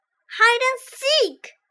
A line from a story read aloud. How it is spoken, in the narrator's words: shouted the children